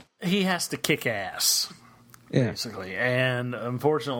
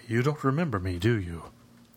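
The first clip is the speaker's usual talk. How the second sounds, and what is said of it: Liam Neeson impression, Irish-American twang. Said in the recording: “he sounds like an Irishman with a slightly tiny, tiny American twang ... That's quite a good impression.”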